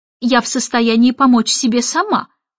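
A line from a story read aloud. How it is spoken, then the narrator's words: Snorting. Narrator (Russian): фыркнула Мэри Поппинс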